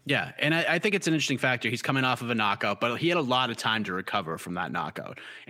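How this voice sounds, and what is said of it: Boston accent. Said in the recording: “My Boston accent just came out for some reason. It never really comes out, but it Wanda came out there.”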